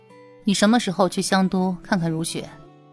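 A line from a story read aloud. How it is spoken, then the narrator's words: Soft question. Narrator (Chinese): 陶南方轻声问道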